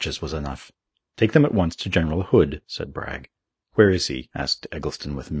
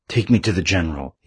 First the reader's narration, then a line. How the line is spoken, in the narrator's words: he gasped